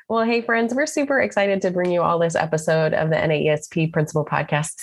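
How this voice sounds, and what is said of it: Very fast speech. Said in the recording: “because I can say it fast.”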